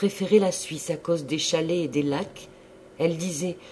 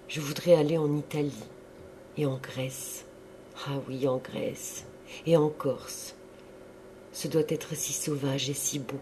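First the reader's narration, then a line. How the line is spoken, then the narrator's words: Slow voice. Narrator (French): d'une voix lente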